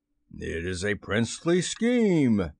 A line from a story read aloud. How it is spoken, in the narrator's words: cried Hook